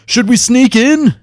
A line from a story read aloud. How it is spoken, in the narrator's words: He shouted